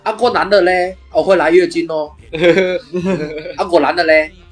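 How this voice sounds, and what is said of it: Imitating 诸葛's accented Mandarin. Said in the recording (Chinese): “他的普通话就是 ... 他就是后面会有个口音 ... 有脱音嘛 ... 讲的会漏风嘛”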